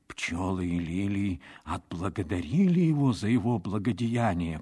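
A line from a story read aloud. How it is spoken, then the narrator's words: Whispered. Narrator (Russian): прошептал он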